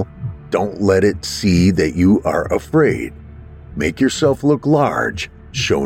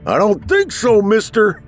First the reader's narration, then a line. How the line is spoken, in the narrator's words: I yelled